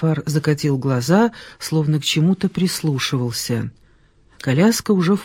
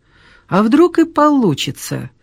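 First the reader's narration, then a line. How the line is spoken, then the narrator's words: Cheerful. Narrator (Russian): весело сказала Ольга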